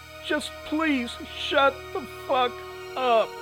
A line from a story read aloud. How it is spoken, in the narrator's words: Shirley screamed into the woman's face